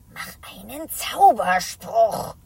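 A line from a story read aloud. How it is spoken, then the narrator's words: Whisper. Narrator (German): flüstert Isabella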